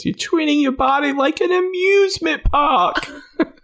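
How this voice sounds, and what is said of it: Whiny, nagging imitated character voice. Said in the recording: “the perfect accent for nagging at... For just nagging... The way she kind of whines”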